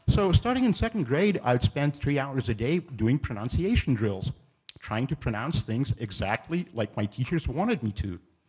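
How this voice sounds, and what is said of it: Charming non-native English accent. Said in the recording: “it's a charming accent they have given you.”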